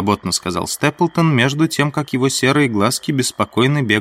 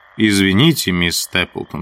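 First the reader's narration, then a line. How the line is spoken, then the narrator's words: Plain. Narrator (Russian): сказал я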